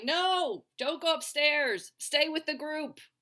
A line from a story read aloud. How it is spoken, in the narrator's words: audiences in the movie theater would be shouting